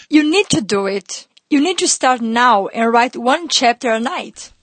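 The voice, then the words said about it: Coaxing Brazilian-accented woman's voice. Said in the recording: “Her beautiful Brazilian accent coaxing me along.”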